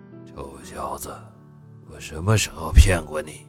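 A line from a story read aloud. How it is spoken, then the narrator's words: Low voice. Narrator (Chinese): 宋振廷 低声道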